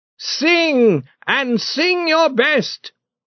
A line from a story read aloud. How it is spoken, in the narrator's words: cried the church leader